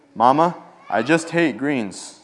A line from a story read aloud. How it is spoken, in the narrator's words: said Reggie